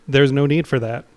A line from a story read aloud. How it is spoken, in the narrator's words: the voice says flatly